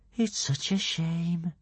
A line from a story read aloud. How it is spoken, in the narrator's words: whispered Kamikaze